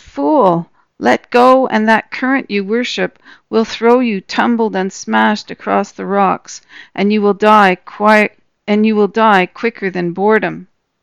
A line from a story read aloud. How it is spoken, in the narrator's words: The other creatures laughed and said